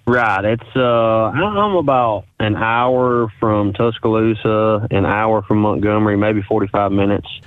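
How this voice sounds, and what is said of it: Central Alabama Southern accent. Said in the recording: “as you can tell with my accent, it is the middle of Alabama”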